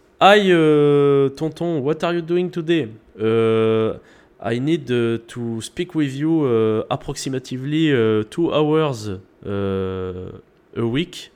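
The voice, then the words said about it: Exaggerated French accent in English. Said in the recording (French): “je vais pouvoir lui parler avec un bon accent français”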